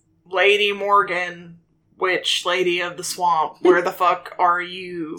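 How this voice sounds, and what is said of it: Put-on character accent. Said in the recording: “I lost control of that accent for a second.”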